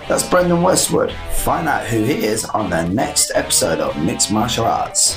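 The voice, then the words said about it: Cheesy radio DJ voice. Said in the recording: “That cheesy radio DJ voice I just did ... cheesiness”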